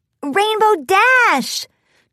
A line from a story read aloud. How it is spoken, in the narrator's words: Twilight yelled, a little louder